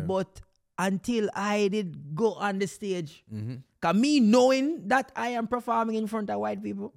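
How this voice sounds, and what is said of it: Jamaican accent. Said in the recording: “I keep my accent. You know that Jamaican people”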